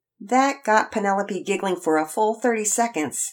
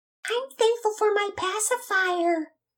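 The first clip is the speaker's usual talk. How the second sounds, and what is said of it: Baby voice. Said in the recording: “in a baby voice”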